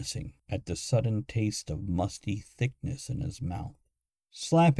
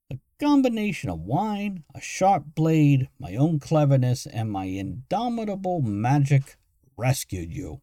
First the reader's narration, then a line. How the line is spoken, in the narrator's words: Morgan shouted, his voice louder than it should have been